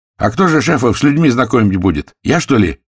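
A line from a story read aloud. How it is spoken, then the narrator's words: Snapping retort. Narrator (Russian): огрызнулся Бастрюков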